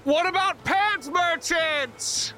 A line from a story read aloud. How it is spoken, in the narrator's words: I shout